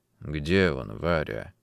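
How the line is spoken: Quiet question. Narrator (Russian): тихо спросил

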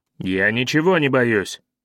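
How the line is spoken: Snapping retort. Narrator (Russian): огрызнулся Бвана

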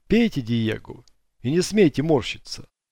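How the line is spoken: Stern. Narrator (Russian): строго сказал О'Лири

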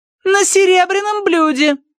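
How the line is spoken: Calling after someone. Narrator (Russian): крикнула Тосси ему вдогонку

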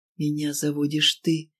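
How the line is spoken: Sweet sigh. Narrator (Russian): Витя ... сладко вздохнул

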